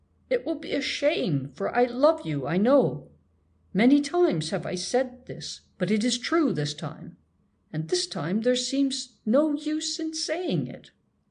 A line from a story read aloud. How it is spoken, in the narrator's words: declared hoarsely